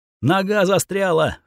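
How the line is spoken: Panicked girl screaming. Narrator (Russian): в панике кричала девушка

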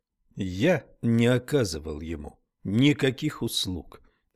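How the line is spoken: Plain. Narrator (Russian): ответил Хармон

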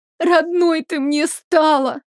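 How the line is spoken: Sobbing. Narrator (Russian): всхлипнула Марион

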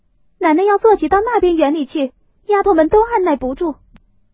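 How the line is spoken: Shouting from inside. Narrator (Chinese): 里头喊说

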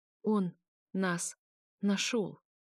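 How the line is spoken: Strained, forced out. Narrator (Russian): Выдавила Лилана

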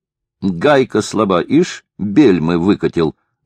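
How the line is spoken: Laughing mockery. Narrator (Russian): засмеялся Хлюст, передразнивая Бюкши

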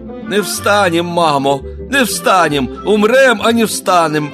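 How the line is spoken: Crowd of Cossacks shouting. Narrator (Russian): кричали запорожцы

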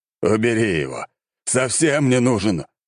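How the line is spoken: Exclaiming. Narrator (Russian): воскликнул император

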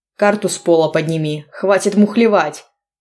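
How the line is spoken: Bellowing. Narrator (Russian): гаркнул Богдан

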